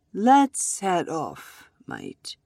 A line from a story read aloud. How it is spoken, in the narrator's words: said calmly